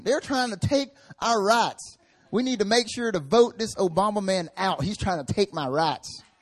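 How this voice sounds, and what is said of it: Strong country accent. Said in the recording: “Strong country accent.”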